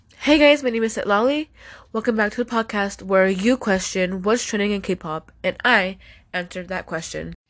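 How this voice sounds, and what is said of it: Slightly sick, congested voice. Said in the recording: “I sound a little like sick because I have allergies right now ... if I sound sick”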